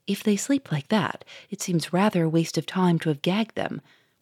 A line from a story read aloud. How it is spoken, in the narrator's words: whispered the Duke to the inspector